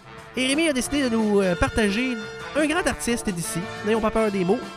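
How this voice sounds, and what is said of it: Strong Québécois French accent. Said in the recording (French): “notre accent, ma foi, fort québécois”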